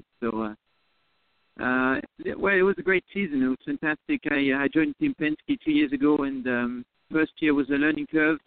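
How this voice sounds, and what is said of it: French-accented English. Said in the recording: “a native of France ... You probably recognize the accent.”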